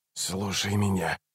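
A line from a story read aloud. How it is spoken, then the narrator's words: Hissed. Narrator (Russian): прошипел Раллик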